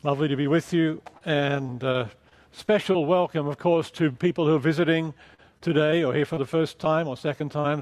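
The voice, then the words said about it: Mixed Australian-English accent. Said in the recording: “the accent, it's kind of mid-Atlantic, mid-Pacific. I'm from Australia, spent many years in England”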